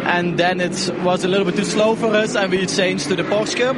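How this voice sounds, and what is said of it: Strong Flemish accent, throaty sounds. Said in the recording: “Now that is an epic accent. that is fully Dutch Belgian ... with the kind of the rolling of the back of the throat that only the Dutch and the Belgian Flemish can do ... it's a Flemish bit. Yeah, literally Flemish.”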